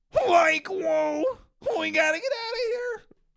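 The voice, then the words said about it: Cartoon stoner character voice. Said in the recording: “my Shaggy impression ... I can do cartoon stoners really good ... That's good. That's really good.”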